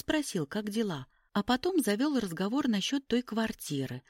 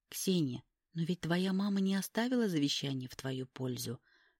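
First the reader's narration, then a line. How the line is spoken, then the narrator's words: Gentle reminder. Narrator (Russian): мягко напомнила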